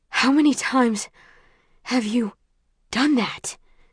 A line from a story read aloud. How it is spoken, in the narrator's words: he asks between breaths